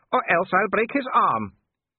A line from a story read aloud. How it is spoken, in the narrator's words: said Wolf, grinning happily